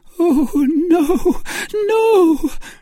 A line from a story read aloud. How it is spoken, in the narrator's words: she suddenly cried